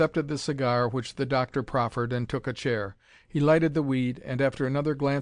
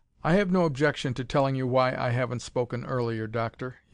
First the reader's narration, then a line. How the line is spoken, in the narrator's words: he said